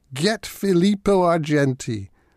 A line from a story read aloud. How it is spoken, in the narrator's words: a gang of other muddy souls yelled out